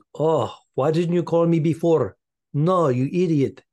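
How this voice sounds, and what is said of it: Put-on nondescript foreign accent. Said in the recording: “Yes, I'm doing an accent. I have no idea where she's from. ... Very nondescript.”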